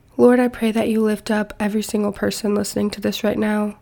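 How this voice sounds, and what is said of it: Congested voice from a cold. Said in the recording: “I do still have a cold, but my voice is getting a little better”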